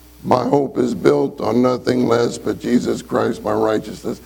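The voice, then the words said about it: Tone-deaf monotone singing. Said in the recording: “they're tone deaf. And so when they sing, it's all the same tone... It's all the same tone. It's all the same tone. He's tone deaf.”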